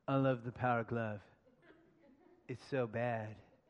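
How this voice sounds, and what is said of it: Impression of a line from The Wizard. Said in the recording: “my best impression ... Was it pretty close? Was that anywhere near? ... The Wizard, the 1989 classic starring Fred Savage”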